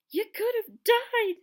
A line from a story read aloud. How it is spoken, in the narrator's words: sobbed Hagrid